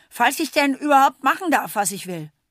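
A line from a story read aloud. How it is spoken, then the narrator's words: Called out. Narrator (German): ruft Berti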